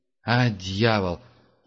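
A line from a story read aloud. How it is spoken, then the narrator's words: Grumbling. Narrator (Russian): пробурчал Герман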